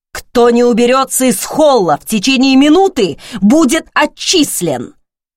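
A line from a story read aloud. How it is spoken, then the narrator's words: Furious bark. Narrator (Russian): Снова рявкнул он и яростно бросил противникам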